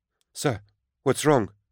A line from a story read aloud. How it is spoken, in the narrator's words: Elena cried out